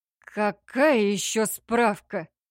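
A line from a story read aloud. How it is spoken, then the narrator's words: Forced out reluctantly. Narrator (Russian): выдавил он наконец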